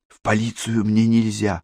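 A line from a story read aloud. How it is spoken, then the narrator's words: Whispered. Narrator (Russian): шепнула ему Катерина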